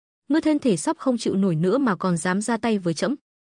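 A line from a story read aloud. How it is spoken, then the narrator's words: Loud laughing. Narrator (Vietnamese): Thiên Lộc Đại Đế cười lớn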